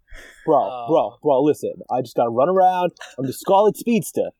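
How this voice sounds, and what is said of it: Heavy put-on New York accent. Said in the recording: “with the heaviest New York accent ever. It is beautiful.”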